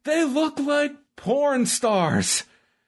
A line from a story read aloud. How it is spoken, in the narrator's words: Tony Schiavone had on this show was him just yelling